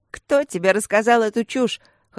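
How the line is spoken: Loud laughter. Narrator (Russian): хохотала

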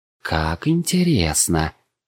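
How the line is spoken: Vampire woman purring. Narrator (Russian): мурлыкнула одна из вампирш

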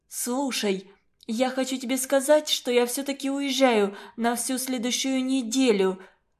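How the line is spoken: Stammering. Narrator (Russian): Запинаясь, говорит Катрин

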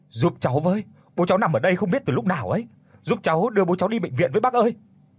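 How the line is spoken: Shouting. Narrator (Vietnamese): Có người hét lên

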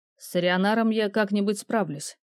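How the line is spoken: Cold. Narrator (Russian): холодно отозвался незнакомец

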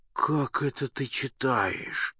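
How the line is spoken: Whisper. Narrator (Russian): шепотом заговорил он

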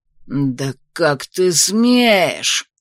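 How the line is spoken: Hissing. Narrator (Russian): зашипел задира

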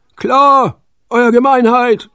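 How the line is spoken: Roared. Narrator (German): brüllten sie

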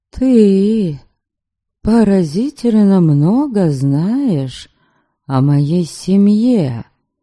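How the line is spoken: Cold, curt statement. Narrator (Russian): Холодно проговорила я

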